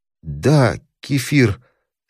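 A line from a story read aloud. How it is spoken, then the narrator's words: Plain. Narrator (Russian): сказала Елена Сергеевна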